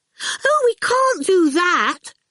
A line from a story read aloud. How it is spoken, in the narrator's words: Miss Potter cried